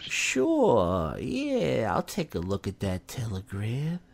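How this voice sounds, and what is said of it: Imitates another person's voice. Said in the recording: “That's my Uncle Paul impression. ... Very good.”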